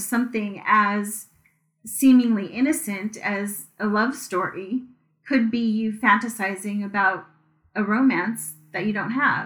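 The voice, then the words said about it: Slightly crackly voice. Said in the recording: “my voice is a little crackly today”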